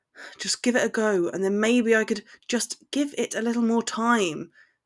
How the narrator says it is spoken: Harry mumbled, so quietly that she barely heard it

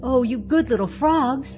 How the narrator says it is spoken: cried Mabel

